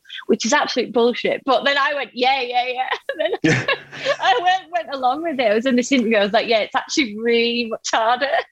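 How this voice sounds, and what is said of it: Strong accent. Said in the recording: “favourite accent of all the ones you do is just yours ... you've got a strong accent”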